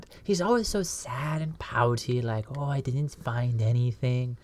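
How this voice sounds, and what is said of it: Imitates another person's voice, sad and pouty. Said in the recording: “a really good impersonation of Holcron ... I do a little impression of him ... It's very good”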